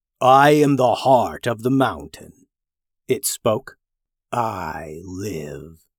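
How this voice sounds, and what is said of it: Deep voice of a stone character. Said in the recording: “deep voice”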